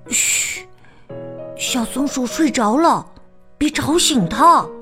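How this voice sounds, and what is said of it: Soft quiet whisper. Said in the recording (Chinese): “小声”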